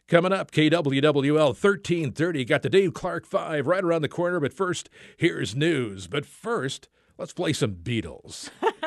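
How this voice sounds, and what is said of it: Radio DJ announcer voice. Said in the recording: “Can you do your DJ voice? ... Can I do my DJ voice?”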